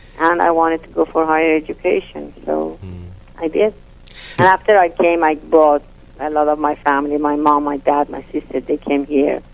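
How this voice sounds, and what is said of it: Non-native English accent. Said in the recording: “I wanted to learn it in American accent, which I couldn't. I keep my accent.”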